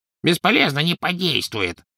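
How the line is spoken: Grumbling goblin. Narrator (Russian): проворчал гоблин

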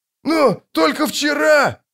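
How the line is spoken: Peasant howling. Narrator (Russian): взвыл кто-то из крестьян

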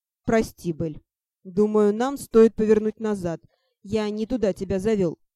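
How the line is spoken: Amused snort. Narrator (Russian): хмыкнул Ти

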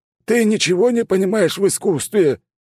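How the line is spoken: Howling. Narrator (Russian): взвыл Людвиг

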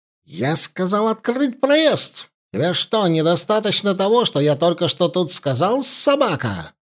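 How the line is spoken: Shrieking. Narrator (Russian): взвизгнул турок

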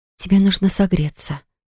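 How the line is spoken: Whisper. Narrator (Russian): прошептала я

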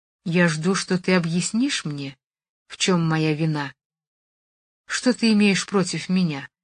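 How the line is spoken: Quiet voice. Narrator (Russian): сказала Джулия, наконец, тихим голосом

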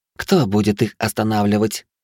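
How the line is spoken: Snorting. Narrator (Russian): фыркнула она

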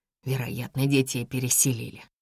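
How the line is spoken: Mumbling. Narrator (Russian): бормочу я

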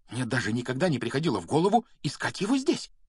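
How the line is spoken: Excited whisper. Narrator (Russian): взволнованно прошептала она

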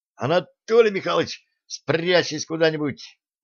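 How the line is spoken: Doomed moan. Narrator (Russian): обреченно застонал

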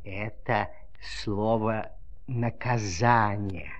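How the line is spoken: Inkwell whispering. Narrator (Russian): шепотом сказала чернильница

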